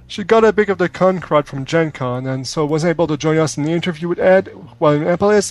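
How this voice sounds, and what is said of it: French-Canadian accent. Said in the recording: “the French-Canadian accent gives us a touch of class”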